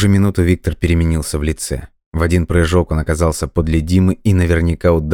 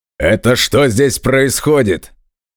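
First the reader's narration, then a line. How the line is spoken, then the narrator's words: Barked demand. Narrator (Russian): рявкнул Николай Иванович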